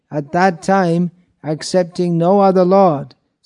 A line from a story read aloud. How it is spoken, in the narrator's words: Sita cried